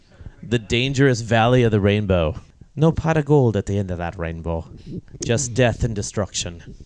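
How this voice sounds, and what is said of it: Leprechaun voice impression. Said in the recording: “that was my leprechaun impersonation ... It was, it was very good.”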